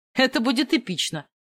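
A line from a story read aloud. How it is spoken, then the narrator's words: Smirking snort. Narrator (Russian): Хмыкнул Бенни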